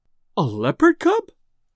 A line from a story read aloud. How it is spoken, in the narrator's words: gasped Mrs